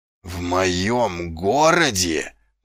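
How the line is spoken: Growling. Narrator (Russian): прорычал он

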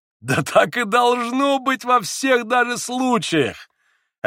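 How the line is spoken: Laughing. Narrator (Russian): опять засмеялся Иван

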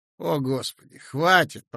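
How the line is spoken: Groaning. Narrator (Russian): простонал я

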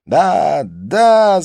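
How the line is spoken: Yelled. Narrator (Russian): завопил Дин

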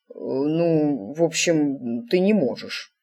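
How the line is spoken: Mumbled. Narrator (Russian): промямлил он

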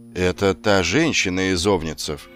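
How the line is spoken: Plain. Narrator (Russian): сказал он

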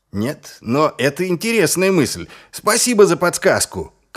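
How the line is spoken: Shouted after someone. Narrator (Russian): крикнул вслед Ваймс

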